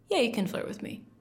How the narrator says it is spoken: I say, coolly

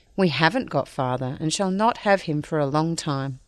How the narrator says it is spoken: Joe said sadly

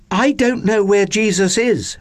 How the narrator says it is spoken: Mary said urgently

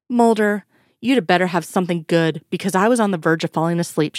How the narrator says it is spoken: she grunted

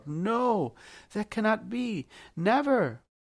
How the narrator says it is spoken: Krishna, half crying, half commanding, and again called out

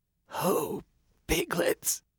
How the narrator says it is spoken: he said, his voice hardly more than a whisper

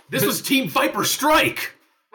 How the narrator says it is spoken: I yell loudly

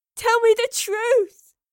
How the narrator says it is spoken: she sobbed

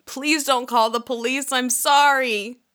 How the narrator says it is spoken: a crying, distressed teenage girl shouting

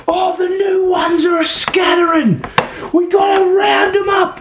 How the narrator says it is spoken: he shouts

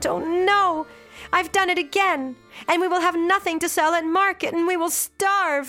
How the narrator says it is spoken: she cried out

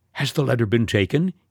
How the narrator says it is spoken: eagerly inquired

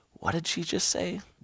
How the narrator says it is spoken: Toby whispered to me

